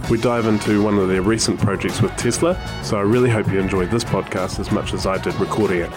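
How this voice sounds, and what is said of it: Smooth radio-style voice. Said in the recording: “you've got a lovely radio voice ... It's all the compression”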